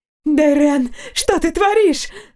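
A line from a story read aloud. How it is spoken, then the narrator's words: Exclaimed from behind. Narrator (Russian): воскликнула позади Артания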